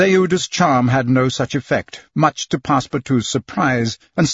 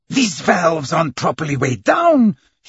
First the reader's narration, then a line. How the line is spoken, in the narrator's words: he exclaimed